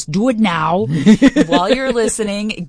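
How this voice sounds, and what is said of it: Imitates another person's voice. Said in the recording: “in my Arnold Schwarzenegger voice”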